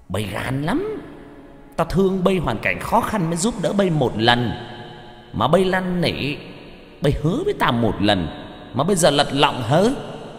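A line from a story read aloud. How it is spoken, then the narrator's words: Shrill voice. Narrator (Vietnamese): ông the thé cái giọng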